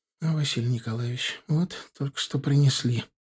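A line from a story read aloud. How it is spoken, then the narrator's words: Whisper. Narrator (Russian): почему-то прошептала она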